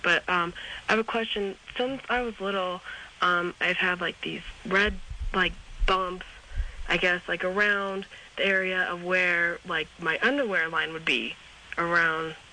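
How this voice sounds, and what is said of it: Rough, sick-sounding voice. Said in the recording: “you'll excuse my voice, I got a little bit of a crud.”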